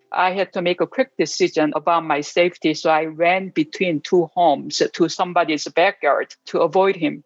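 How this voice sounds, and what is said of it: Asian immigrant accent in English. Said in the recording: “as an Asian American and also, you know, immigrant woman, because, you know, of my look and my accent”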